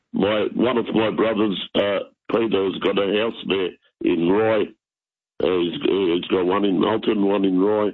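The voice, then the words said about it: Hoarse, partly lost voice. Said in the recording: “sorry about my voice. I nearly lost it completely”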